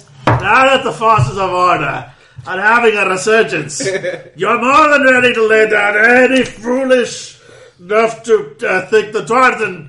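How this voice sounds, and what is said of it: Put-on Scottish dwarf accent. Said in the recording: “the dwarven accent, which we all know is Scottish”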